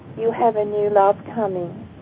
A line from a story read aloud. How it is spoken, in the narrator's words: And in a very quiet voice, he said